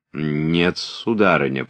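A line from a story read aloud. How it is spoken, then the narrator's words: Displeased. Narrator (Russian): продолжал Пьер недовольным тоном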